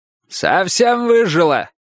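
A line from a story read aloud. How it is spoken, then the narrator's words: Old man's shouted reply. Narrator (Russian): крикнул дедушка в ответ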